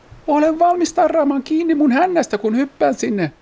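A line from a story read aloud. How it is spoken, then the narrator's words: Shouted instruction. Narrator (Finnish): Kurre huusi ohjeeksi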